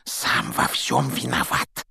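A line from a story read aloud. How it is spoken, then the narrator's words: Heavy sigh. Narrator (Russian): тяжело вздохнул Рон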